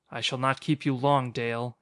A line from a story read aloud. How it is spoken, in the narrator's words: he said harshly